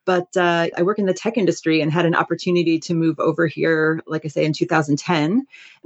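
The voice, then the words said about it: American accent. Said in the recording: “I actually moved here about 10 years ago from the U.S. You can probably tell from my accent, I'm not from Dublin originally.”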